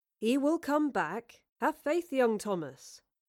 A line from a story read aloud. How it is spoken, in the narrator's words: Will calmly replied